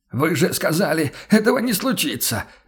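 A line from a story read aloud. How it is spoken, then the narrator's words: Hoarse shout. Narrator (Russian): сипло выкрикнул он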